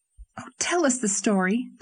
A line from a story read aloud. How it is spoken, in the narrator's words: pleaded Anne